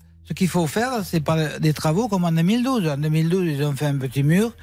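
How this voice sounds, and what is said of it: Slight sing-song regional accent. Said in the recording (French): “il y a un petit accent chantant”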